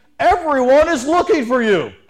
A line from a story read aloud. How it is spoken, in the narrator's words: Simon and his companions … they exclaimed